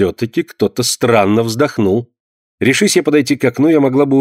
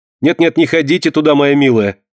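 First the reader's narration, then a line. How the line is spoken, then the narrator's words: Loud reply. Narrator (Russian): громко ответила ей Амалия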